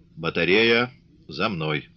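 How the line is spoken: Quiet command. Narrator (Russian): негромко приказал

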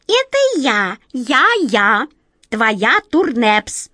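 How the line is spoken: Shrill voice. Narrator (Russian): продолжал все тот же визгливый голос

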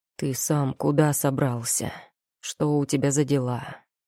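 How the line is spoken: Hoarse question. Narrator (Russian): хрипло спросил эльф

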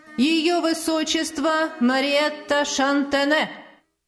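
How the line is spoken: Loud formal announcement. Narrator (Russian): громко сообщил распорядитель бала

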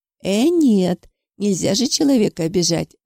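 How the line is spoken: Exclaiming woman. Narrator (Russian): воскликнула тетя Мила

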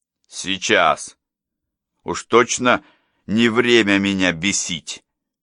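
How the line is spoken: Growled. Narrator (Russian): прорычал

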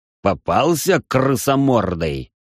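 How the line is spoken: Growling. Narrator (Russian): прорычал я

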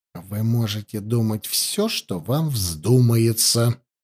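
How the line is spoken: Quiet, clipped. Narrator (Russian): тихо отчеканил Раевский

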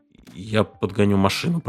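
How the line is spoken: Muttered. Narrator (Russian): пробормотал Морчик

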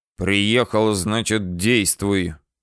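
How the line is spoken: Growled to himself. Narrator (Russian): рыкнул я на себя

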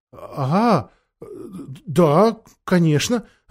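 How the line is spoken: Confused. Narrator (Russian): растерянно сказал Шаста

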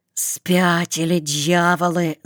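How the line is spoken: Hiss. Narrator (Russian): зашипел хромой

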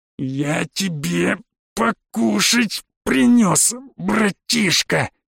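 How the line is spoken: Angrily through gritted teeth. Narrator (Russian): Цедил злобно сквозь зубы

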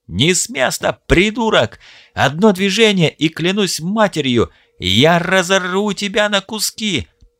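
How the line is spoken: Strangled furious wheeze. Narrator (Russian): Просипел Оуэн с искаженным гримасой ярости лицом, покрасневшим от удушения

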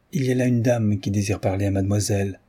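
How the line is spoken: Plain. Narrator (French): dit-elle

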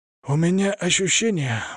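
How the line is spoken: Pained breathy exhale. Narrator (Russian): выдохнул он, морщась

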